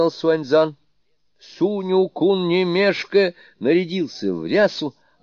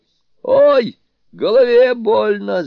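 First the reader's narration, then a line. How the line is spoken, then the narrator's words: Wailing. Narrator (Russian): завопил Суню-кун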